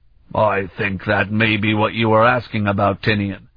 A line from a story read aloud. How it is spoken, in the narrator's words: Ulof rumbled